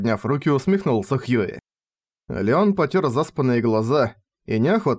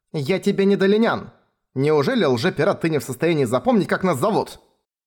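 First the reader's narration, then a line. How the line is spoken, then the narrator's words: Irritated question. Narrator (Russian): Раздраженно спросила Далиан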